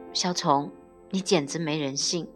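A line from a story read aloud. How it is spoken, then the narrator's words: Close to tears. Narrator (Chinese): 突然就想哭，我说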